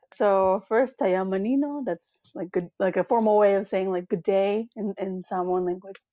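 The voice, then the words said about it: American accent. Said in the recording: “living in the diaspora specifically the United States, as you can probably tell by my accent.”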